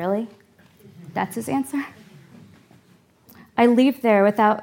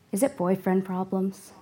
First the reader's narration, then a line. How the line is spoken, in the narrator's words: he asks